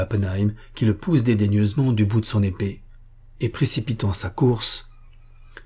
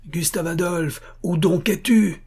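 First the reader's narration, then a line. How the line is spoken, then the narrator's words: Shouting again. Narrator (French): crie-t'il de nouveau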